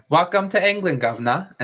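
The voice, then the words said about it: Put-on British accent. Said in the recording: “Your British accent? ... See? I got it.”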